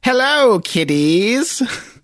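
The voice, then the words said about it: Crypt Keeper impression. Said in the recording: “this is a Crypt Keeper reference, so I'll try to do the voice ... Oh, that's pretty good.”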